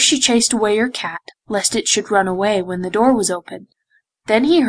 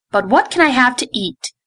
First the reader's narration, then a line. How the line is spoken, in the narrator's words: cried Prince Vivien sharply